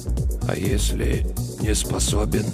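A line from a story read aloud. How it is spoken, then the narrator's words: Hoarse whisper. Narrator (Russian): Из сизых губ исходил один хриплый шепот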